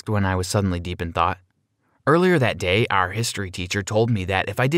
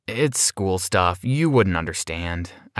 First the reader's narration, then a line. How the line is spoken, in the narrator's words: sighed